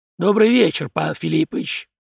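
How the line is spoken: Hoarse. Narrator (Russian): прохрипел Зимин

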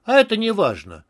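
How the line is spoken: Normal carefree voice. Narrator (Russian): совершенно нормальным, беспечным голосом ответил Борис

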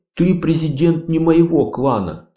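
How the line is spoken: Forced, emphatic. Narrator (Russian): с нажимом выдавил из себя Дукат

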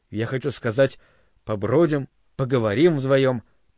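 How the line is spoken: Mutter. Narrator (Russian): пробормотал он

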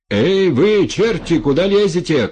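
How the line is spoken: Distant shout. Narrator (Russian): крикнул сплавщик с того берега

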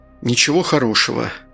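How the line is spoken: Sighing. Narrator (Russian): Артур вздохнул

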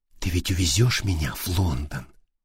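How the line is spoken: Passionate whisper. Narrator (Russian): Кася жарко шептала

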